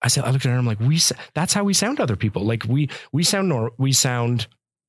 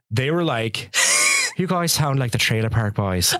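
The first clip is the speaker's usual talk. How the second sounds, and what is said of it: Put-on Irish accent, somewhat East Coast. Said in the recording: “That's a good Irish accent. ... That was really good. ... That kind of sounded like East Coast a little bit, though”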